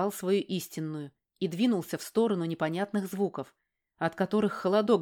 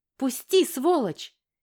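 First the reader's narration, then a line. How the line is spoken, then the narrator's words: Little girl's shout. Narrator (Russian): крикнула моя малышка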